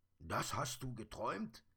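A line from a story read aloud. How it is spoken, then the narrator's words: Excited question. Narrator (German): fragte der Sandmann aufgeregt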